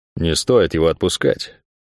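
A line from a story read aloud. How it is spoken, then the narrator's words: Advising. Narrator (Russian): посоветовал он ей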